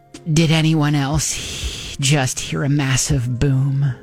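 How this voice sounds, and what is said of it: Put-on sexy voice. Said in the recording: “That's your sexy voice?”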